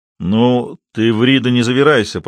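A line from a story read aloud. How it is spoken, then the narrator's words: Rumbling, impolite. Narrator (Russian): прогудел Касьянов, нисколько не заботясь о вежливости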